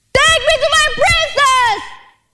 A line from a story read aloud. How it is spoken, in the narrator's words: Aladdin shouted